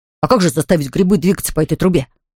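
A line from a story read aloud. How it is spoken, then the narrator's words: Plain. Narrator (Russian): спросил Винтик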